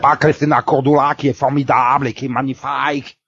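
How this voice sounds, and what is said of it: Forced exaggerated accent, imitates another person's voice. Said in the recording (French): “arrête de forcer ton accent de merde ... il imitait Christina.”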